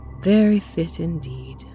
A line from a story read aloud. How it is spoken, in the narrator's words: she sighed